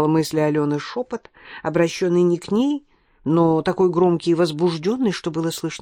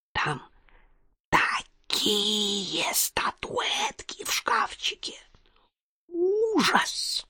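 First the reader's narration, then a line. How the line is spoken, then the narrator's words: Loud whisper, girl. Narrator (Russian): прошептала все так же громко толстая некрасивая девушка с золотыми волосами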